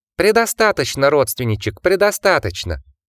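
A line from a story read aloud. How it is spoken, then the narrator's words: Squeaking mouse. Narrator (Russian): запищал вновь мышь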